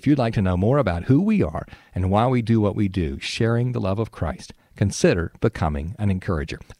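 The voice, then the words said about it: Southern drawl. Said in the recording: “in my southern drawl”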